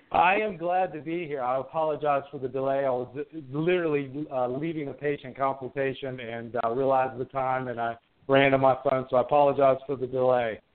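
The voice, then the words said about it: Southern American accent. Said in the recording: “your accent... Southern gentleman”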